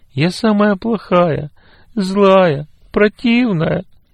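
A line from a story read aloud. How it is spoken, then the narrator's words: Sobbing. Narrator (Russian): всхлипывала Лена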